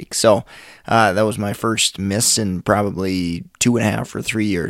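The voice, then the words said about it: Hoarse, scratchy voice. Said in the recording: “my voice. It's a little bit hoarse ... the voice being a little scratchy”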